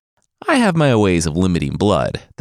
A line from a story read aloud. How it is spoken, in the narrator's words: the Dokebi laughed